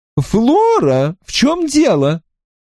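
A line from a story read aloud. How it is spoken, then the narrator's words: Exclamation. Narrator (Russian): воскликнула тетушка Грейстил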